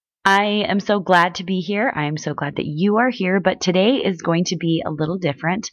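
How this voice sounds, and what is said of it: Off-sounding voice. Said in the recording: “I don't know if you can tell, but my voice is all out of whack because I have been sick.”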